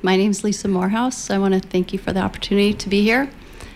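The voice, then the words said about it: Nervous, uneasy voice. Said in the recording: “as you can tell by my voice, I'm not comfortable speaking in public.”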